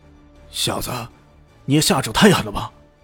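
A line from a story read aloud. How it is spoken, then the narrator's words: Angry. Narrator (Chinese): 清风男怒道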